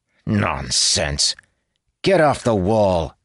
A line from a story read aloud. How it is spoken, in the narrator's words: he sneered eventually